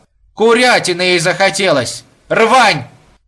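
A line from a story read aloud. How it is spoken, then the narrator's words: Loud woman's voice. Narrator (Russian): Женщина громко произнесла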